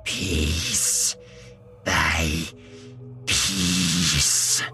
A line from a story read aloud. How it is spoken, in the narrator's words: she hissed in a choked voice